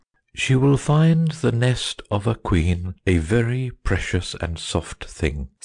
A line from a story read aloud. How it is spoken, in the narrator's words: said the bird solemnly